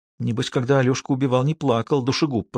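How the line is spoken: Whispered. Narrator (Russian): прошептала она

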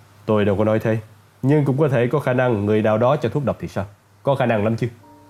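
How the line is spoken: Angry. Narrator (Vietnamese): Lorraine giận dữ

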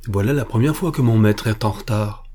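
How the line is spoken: Plain. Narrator (French): dit Magnus

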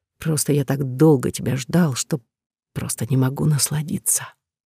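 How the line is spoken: Drawling laugh, hot whisper. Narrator (Russian): Протянув со смешком, жарко прошептал

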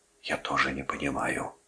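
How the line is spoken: Whispered reply. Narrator (Russian): прошептал Брэдли в ответ

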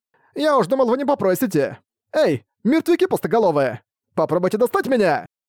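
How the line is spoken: Shouting. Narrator (Russian): Прокричал Рокард

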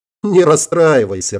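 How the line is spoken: Laughing. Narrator (Russian): рассмеялась

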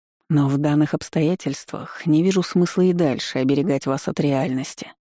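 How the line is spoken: Insinuating whisper. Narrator (Russian): прошептал вкрадчиво

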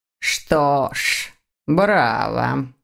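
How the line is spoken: Muttered. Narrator (Russian): пробормотал профессор

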